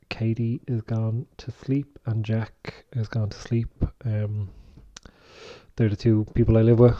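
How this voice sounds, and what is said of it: Whispering softly. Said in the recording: “I am kind of whispering a little bit because everyone's in bed now”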